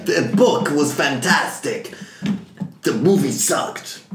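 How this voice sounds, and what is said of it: Put-on Italian accent. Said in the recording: “That's my Italian accent.”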